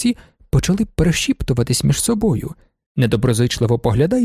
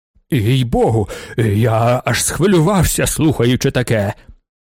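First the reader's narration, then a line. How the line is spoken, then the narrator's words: Excited exclamation. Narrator (Ukrainian): вигукнув маршалок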